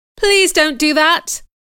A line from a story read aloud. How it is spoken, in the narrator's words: I cried